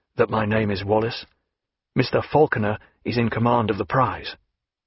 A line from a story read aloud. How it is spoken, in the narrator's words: he added in a low voice